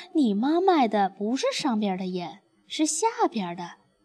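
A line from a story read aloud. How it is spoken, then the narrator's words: Giggling children. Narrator (Chinese): 小伙伴们就嘻嘻笑，说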